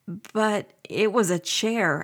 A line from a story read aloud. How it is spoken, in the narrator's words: stammered